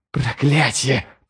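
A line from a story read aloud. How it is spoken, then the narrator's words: Hissed. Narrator (Russian): прошипел Ярви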